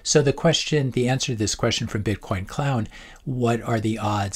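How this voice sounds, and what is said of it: Hoarse voice. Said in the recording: “apologize as well for my voice today. I'm very hoarse.”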